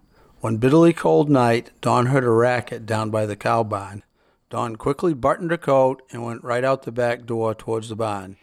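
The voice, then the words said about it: New England Yankee accent. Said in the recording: “the accent of New England ... that Yankee accent”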